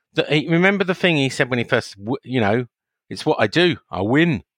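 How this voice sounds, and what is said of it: Scottish accent impression. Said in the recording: “that's my Scottish impression ... Yeah, you've nailed it”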